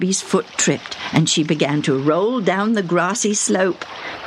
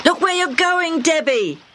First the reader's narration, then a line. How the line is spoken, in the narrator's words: Hammy shouted